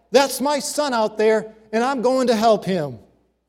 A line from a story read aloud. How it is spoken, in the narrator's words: He simply yelled back